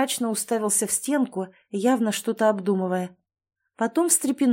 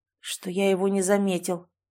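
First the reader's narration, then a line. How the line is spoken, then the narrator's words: Grim man. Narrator (Russian): мрачно изрек мужчина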